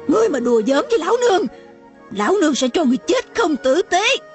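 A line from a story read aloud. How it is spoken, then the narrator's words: Woman screaming. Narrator (Vietnamese): mụ ... hét lên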